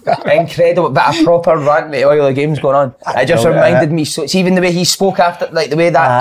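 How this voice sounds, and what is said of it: Usual voice. Nothing is said of it.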